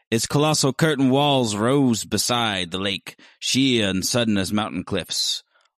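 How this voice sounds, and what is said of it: Reads aloud with a distinctive accent. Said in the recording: “What is this accent? I love it.”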